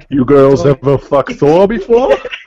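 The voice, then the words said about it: Imitates a Thor-style accent. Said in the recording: “that stupid Thor accent”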